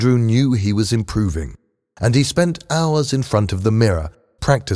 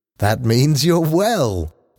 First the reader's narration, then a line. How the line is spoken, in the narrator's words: said, laughing